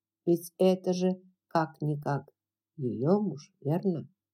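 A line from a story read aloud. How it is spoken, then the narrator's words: Soft. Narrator (Russian): Мягко проговорил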